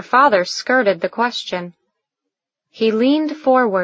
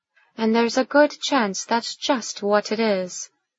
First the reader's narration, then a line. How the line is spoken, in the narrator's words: she muttered, knowing she was never going to win this battle